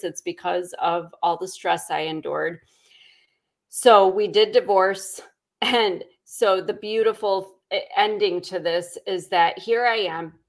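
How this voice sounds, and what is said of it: Scratchy, hoarse voice. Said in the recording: “You can hear the scratchiness in my voice.”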